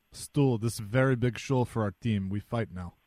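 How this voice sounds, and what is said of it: Impression of Christoph Oliwa, broken English. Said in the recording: “That's a very good impression of my old buddy, Christoph Oliwa ... he didn't know a lot of English”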